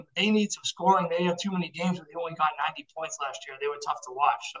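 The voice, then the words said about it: Boston accent. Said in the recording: “you are a big Red Sox fan for people who can't tell by your accent”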